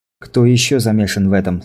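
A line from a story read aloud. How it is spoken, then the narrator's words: Plain. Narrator (Russian): спросил Синклер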